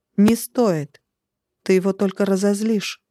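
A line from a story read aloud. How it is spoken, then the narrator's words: Loud but calm stranger. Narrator (Russian): Голос незнакомца прозвучал громко, но спокойно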